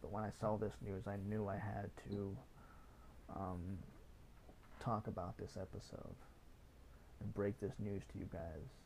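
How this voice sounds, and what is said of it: Raspy, tired voice. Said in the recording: “my throat sounds kind of raspy today ... my voice is kind of tired ... my throat's kind of sore”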